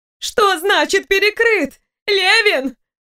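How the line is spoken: Demanding shout. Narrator (Russian): Зои закричала, требуя разъяснений

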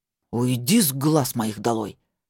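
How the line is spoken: Words through teeth. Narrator (Russian): Процедил он

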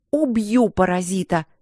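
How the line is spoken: Growl. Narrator (Russian): рычала я

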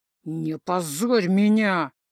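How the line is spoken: Through gritted teeth. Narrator (Russian): сквозь зубы

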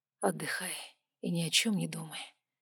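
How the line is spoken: Quiet male voice. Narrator (Russian): тихо сказал мужчина

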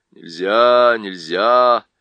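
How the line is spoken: Sleepy. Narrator (Russian): сонно повторила Уго-го

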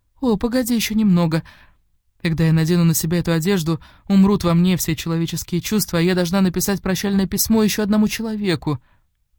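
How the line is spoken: Pleading. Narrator (Russian): она взмолилась

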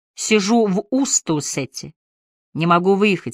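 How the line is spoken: Plain. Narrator (Russian): сказала она

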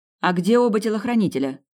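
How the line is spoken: Shouted after someone. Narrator (Russian): крикнула Сабина вслед женщине

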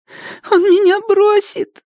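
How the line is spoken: Sobbing. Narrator (Russian): всхлипнула она

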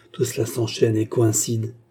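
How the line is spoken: Murmured. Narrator (French): murmura-t-il

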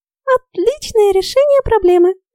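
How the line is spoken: Joyful confirmation. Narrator (Russian): радостно подтвердила Ульрика

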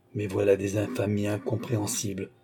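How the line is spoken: Stunned murmur. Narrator (French): murmura le pauvre avec stupéfaction

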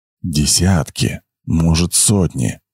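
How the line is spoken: Anxious whisper. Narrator (Russian): По строю побежал тревожный шепот

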